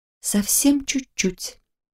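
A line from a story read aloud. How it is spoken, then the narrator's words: Girl quietly arguing with herself. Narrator (Russian): тихо поспорила сама с собой девушка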